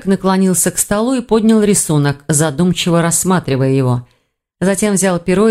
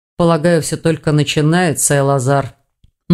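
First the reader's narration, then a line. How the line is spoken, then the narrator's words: Gloomy reply. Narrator (Russian): мрачно отозвался Хью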